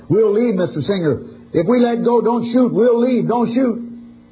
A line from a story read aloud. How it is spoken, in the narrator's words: he shouted while trying to stay calm